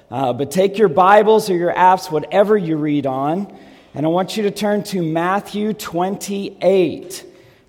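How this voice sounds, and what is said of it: Strained, failing voice. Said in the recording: “I'm losing my voice if you can't tell”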